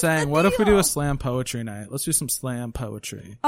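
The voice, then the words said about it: Sarcastic tone. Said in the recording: “I'm saying it very sarcastically.”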